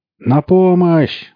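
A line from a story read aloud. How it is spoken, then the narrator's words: Shouting. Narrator (Russian): закричал бармен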